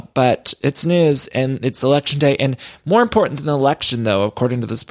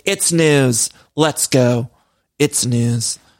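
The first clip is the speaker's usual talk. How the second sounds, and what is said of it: Impression of Hoda Kotb reading news. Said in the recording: “that's my impression of Hoda doing the news”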